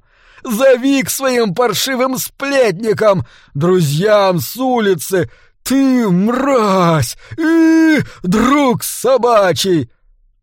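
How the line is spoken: Shrieking crowd. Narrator (Russian): Теперь уже визжали другие люди

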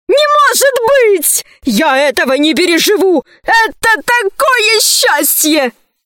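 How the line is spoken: Wild scream. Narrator (Russian): закричал диким голосом

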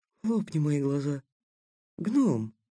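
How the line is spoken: Soft whisper. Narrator (Russian): тихонько прошептал Такеда

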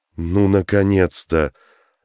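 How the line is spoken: Man's relieved sigh. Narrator (Russian): облегченно вздохнул мужчина

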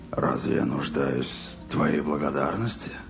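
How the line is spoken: Hoarse, utterly exhausted. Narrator (Russian): просипел Роланд голосом безмерно уставшего человека

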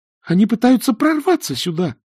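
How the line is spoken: Shrill squeal. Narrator (Russian): взвизгнула Эск

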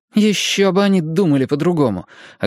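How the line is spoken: Snappish retort. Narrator (Russian): огрызнулась Мия

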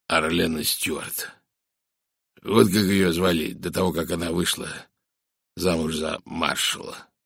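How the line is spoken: Hoarse whisper. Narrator (Russian): хрипло прошептал майор Барри

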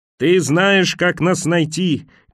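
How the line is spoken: Shouted back. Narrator (Russian): крикнула она в ответ

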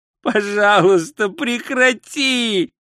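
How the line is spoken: Moan. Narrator (Russian): простонал Ринсвинд

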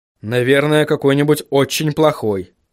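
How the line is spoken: Snorting chuckle. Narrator (Russian): хмыкнул Вильям

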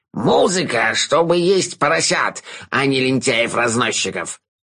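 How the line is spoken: Bark. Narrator (Russian): рявкнул он

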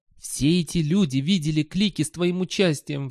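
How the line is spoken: Pleading. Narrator (Russian): взмолился Сол

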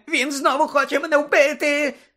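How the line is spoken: Sudden shriek. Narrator (Ukrainian): несподівано заверещав Петігру

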